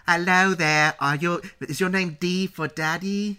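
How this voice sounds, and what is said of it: Imitated English little girl accent. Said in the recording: “She's got that accent that I know so many, when I lived in England for 2 years, all those little girls who grew up there are just like”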